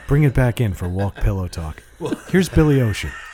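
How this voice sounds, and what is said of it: Radio DJ announcer voice. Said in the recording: “doing the radio voice”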